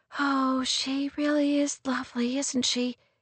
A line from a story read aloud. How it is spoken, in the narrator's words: Kate whispered